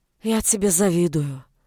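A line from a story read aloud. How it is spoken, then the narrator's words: Sigh. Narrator (Russian): вздохнула Наоми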